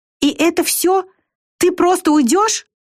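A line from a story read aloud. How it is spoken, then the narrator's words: Desperate exclamation. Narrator (Russian): В отчаянии воскликнула Вика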